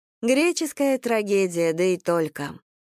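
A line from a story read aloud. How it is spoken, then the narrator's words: Sighing. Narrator (Russian): вздохнула Сашка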